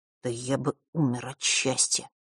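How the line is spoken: Quiet remark. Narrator (Russian): тихо бросил он

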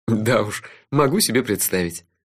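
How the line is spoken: Relieved laughter. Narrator (Russian): с облегчением рассмеялся я

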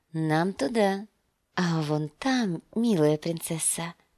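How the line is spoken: Whisper. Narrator (Russian): прошептал он

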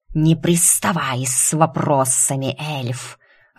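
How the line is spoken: Irritated snake hissing. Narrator (Russian): раздраженно зашипела змея

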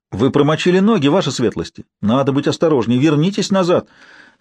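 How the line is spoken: Mock-concerned exclamation. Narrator (Russian): С насмешливым опасением в голосе воскликнул юноша

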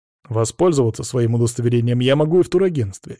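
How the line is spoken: Angry. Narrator (Russian): сердито сказал он

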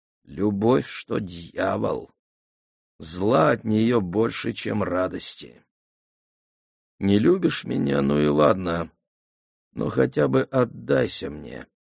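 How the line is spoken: Through gritted teeth. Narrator (Russian): Помолчав, процедил

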